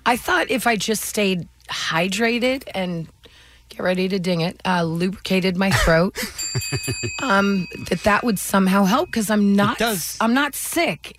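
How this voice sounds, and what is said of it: Hoarse, sick-sounding voice. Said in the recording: “how the liquids help your voice ... like a laryngitis, but not quite ... they sound sick”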